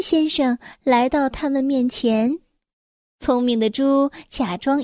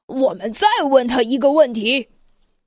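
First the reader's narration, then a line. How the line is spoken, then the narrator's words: Snickering. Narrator (Chinese): 聪明的大象窃笑着说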